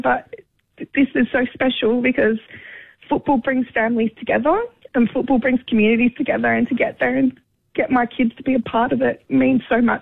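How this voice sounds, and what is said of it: Emotional, moved voice. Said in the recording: “Sorry, I'm getting emotional”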